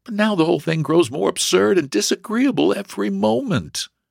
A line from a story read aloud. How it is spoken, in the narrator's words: she groaned to herself